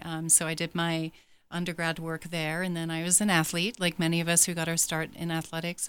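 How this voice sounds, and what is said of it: Slight English accent. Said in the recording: “I was born and raised in England ... The accent's a little bit still there.”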